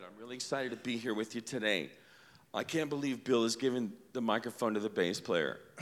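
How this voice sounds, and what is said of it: Ragged, sick-sounding voice. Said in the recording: “My voice is really raggedy. I've been pretty sick”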